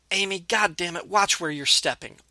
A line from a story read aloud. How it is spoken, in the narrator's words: Officer Harrison barked at her